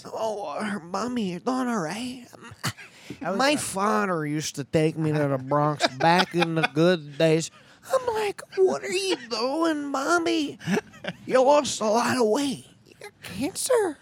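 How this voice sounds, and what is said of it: Imitates another person's voice. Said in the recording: “doing a Sebastian voice... What's your Sebastian voice?”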